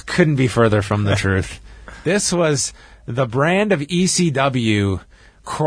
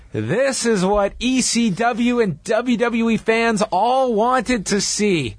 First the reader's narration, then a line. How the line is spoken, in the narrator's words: Joey Styles, the voice of ECW, yells